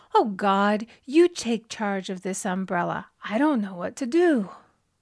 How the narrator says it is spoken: in desperation, she exclaimed

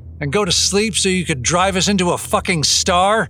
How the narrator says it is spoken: Adam roared

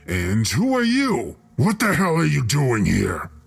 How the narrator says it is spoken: His tone was very aggressive

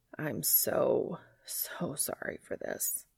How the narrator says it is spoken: he says weakly

